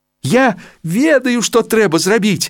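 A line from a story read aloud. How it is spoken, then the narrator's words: Joyful exclamation. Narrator (Russian): радостно ускликнул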